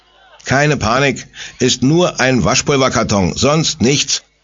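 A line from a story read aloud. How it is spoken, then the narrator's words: Blaster calling out. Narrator (German): ruft der Sprengmeister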